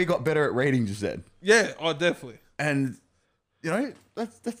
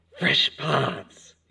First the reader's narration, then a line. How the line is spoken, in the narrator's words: he hissed